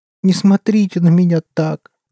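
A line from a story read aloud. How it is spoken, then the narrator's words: Whimpering. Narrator (Russian): захныкал он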